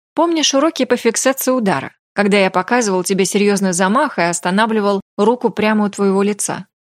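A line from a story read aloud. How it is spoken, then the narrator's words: Plain. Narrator (Russian): спросил он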